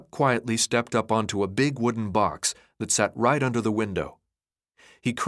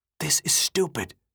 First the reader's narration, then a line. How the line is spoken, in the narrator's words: Thomas whispered